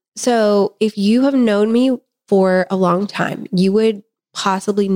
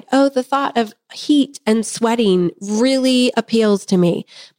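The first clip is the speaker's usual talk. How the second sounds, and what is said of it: Sarcastic delivery. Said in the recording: “You're being sarcastic”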